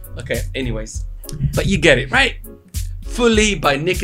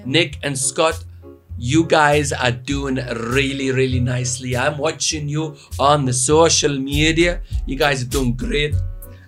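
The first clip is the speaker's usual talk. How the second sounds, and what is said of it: Put-on Scottish accent. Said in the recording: “Why am I putting a Scottish accent? Man, this Scottish. Is weird.”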